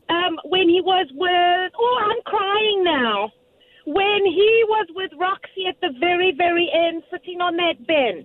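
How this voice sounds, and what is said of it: South African accent. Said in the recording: “your beautiful South African accent. I love the South African accent.”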